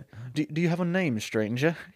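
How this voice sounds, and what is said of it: Put-on Southern US accent. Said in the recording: “I don't know why I'm doing a southern accent.”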